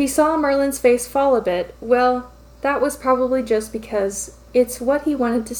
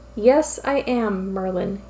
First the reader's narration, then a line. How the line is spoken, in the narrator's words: he answered evenly